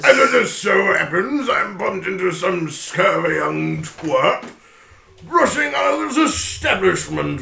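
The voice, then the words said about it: Boisterous, unfamiliar put-on accent. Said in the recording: “look at this boisterous gentleman ... Do I recognize this accent? Does anyone actually talk like this? ... This is not a dialect that you have ever heard before.”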